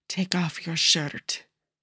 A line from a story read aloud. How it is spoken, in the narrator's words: Primo whispers between frantic kisses